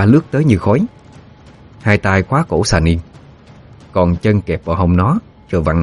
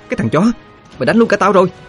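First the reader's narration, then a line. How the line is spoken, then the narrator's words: Sharp shout. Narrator (Vietnamese): quát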